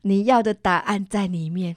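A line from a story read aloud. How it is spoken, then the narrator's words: Smiling. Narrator (Chinese): 对着我笑着说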